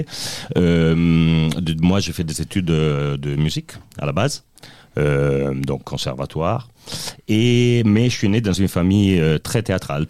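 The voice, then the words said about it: Slight Italian accent in French. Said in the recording (French): “je suis italien ... Je n'ai plus d'accent du tout, mais quand même, un peu, c'est resté.”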